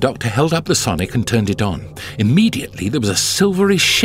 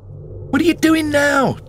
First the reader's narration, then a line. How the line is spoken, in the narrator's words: Donna shouted